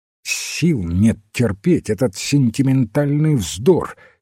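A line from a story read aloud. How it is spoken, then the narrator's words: Angry interruption. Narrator (Russian): сердито оборвал его Уэйн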